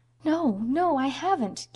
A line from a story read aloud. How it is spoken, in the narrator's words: gasped poor Anne